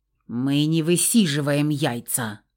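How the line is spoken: Growl. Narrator (Russian): рыкнул Феникс

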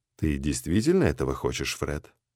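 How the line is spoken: Soft question. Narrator (Russian): мягко осведомился Джим

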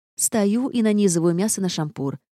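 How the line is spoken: Irritated explanation. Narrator (Russian): раздраженно пояснила я

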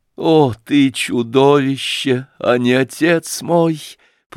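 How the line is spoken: Moaned. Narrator (Russian): простонала она

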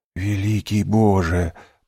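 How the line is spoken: Whisper. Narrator (Russian): прошептал Дантес

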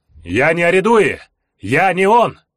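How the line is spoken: Shouting into roaring darkness. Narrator (Russian): крикнул в ревущую тьму

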